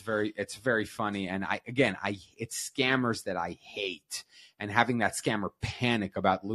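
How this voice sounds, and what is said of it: Usual voice. Nothing is said of it.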